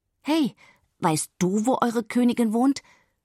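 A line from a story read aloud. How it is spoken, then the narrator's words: Shouting at full strength. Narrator (German): ruft Marie nun aus Leibeskräften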